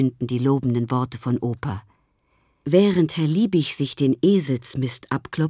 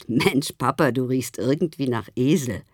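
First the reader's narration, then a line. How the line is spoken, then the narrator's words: Said laughing. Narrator (German): Und Theo sagte lachend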